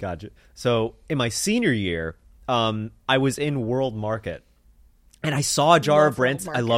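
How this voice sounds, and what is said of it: Usual voice. Nothing is said of it.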